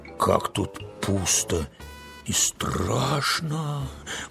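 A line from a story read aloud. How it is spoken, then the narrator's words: Whisper. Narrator (Russian): прошептала она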